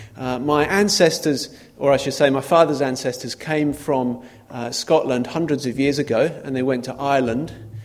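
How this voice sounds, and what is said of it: Non-local accent in Glasgow. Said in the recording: “my accent is not local”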